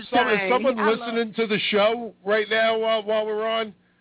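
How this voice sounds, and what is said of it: New York accent. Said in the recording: “my moronic New York accent”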